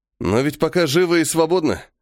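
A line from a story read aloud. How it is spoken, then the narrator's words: Snorting. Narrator (Russian): хмыкнул я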